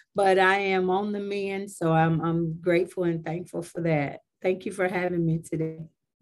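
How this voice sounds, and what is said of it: Slightly off, sick-sounding voice. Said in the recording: “My voice is a little funny. I'm recovering from the old-fashioned flu”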